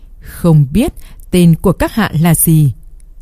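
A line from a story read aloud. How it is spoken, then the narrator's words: Smiling question. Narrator (Vietnamese): La Trinh mỉm cười, hỏi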